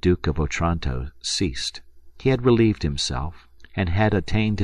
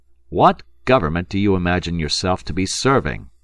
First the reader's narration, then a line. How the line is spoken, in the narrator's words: interrupted the minister sharply